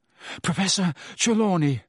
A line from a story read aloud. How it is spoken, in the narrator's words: Harry panted